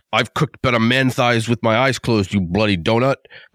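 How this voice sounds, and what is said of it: Bad imitation of another person's voice. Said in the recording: “That's a horrible Gordon Ramsay accent.”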